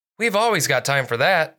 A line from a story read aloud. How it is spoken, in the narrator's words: said Officer Blake